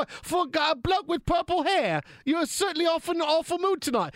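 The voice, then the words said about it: Put-on foreign accent. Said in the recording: “staying in accent ... foreign accents are supposed to be sexy. You're ruining it.”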